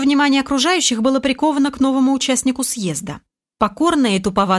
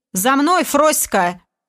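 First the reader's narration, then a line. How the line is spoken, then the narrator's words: Haughty shout, coarse man. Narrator (Russian): надменным голосом выкрикнул мужлан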